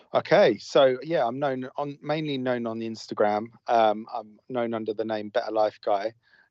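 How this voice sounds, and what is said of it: English accent. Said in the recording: “calling in from England ... I love the accent.”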